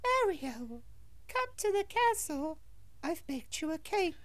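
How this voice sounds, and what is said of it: Menacing attempt at princess voice. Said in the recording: “a Peach impression ... You sound like you're going to kill him. ... I sound like Bowser doing an impression of Peach.”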